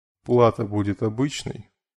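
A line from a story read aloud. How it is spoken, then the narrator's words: Calm inquiry. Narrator (Russian): спокойно осведомился он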